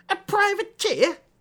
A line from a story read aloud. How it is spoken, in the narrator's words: Hesper spat